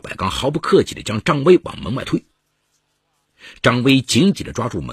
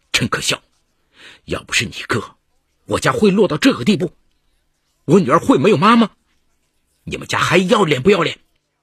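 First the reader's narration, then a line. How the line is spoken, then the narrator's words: Furious, grief-stricken roar. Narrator (Chinese): 张威的话瞬间引燃了赵百刚深埋于心底的哀伤与怒火，怒吼道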